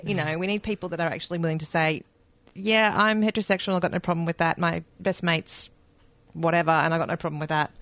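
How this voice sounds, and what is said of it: New Zealand accent. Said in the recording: “That's with my New Zealand accent.”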